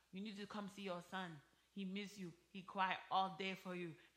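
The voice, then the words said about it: Imitating her mother's accent. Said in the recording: “Let me do her accent.”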